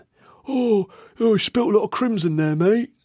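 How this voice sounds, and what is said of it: Imitates another person's voice. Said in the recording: “Sorry about the impression there.”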